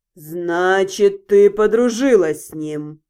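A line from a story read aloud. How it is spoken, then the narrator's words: Drawled, more statement than question. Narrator (Russian): Скорее утвердительно, чем вопросительно протянул Тицион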